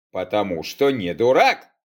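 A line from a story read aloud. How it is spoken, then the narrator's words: Snort. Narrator (Russian): хмыкнул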